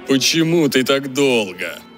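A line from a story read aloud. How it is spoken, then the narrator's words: Roar, growing desire. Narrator (Russian): Проревел, и желание его явно вспыхнуло еще сильнее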